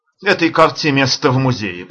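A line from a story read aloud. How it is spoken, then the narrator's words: Grumbling, angry yet delighted. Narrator (Russian): проворчал не то сердито, не то восторженно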